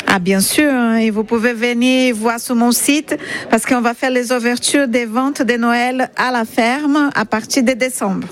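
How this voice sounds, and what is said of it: Slight Brazilian accent in French. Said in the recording (French): “votre petit accent du sud de Sarthe ... puisque vous êtes d'origine brésilienne ... vous avez un petit accent”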